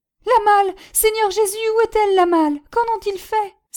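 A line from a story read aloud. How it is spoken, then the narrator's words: Exclaiming. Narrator (French): s'exclama Prudence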